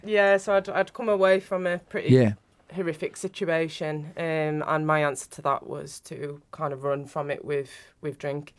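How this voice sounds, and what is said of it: Northern English accent. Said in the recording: “I'm not from around here. You can tell with my accent... Northern”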